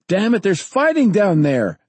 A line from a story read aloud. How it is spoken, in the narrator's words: Danny shouted